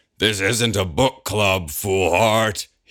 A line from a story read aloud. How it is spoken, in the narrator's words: roars